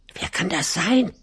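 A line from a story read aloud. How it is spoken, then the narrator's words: Excited little kids whispering. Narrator (German): flüsterten die kleinen Geißlein aufgeregt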